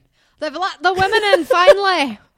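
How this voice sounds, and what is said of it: Good put-on Scottish accent. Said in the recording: “you've got a really good Scottish accent”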